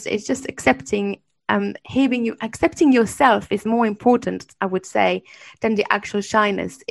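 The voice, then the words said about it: French accent speaking English. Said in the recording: “I'm French, and I learned English and a different language, so my accent will be different”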